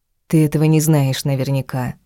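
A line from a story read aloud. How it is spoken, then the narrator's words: Soft retort. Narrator (Russian): мягко парировала она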